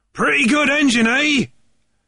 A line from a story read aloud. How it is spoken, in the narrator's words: yelled